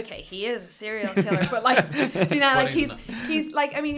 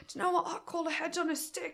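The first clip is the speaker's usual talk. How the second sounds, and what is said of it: Bad put-on Australian accent. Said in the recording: “that's a really bad Australian accent”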